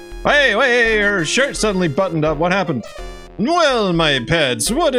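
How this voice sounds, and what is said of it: Usual voice. Nothing is said of it.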